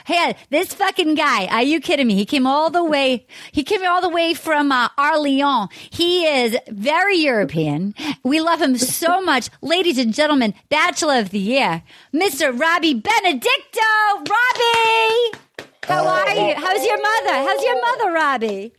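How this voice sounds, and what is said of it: Put-on Massachusetts accent. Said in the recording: “Can I do a Massachusetts accent ... you have to do French in Boston”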